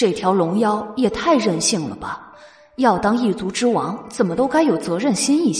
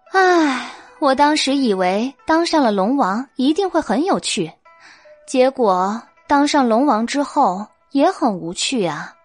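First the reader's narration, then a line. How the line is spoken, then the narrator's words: Sighing. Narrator (Chinese): 白姬叹道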